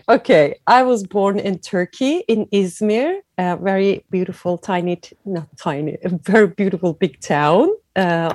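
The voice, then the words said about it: Noticeable foreign accent in English. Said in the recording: “you have a beautiful accent”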